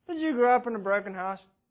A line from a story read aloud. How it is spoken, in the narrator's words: Murray asked him dryly and seemingly with little compassion